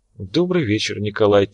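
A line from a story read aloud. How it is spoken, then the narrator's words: Quiet speech. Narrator (Russian): тихо проговорила она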